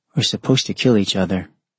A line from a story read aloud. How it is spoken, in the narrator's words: he sighed